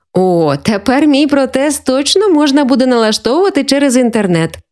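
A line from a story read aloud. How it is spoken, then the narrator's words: Joking. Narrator (Ukrainian): пожартувала Валентина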